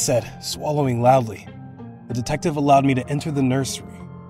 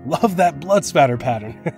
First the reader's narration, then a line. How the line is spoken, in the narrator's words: he laughed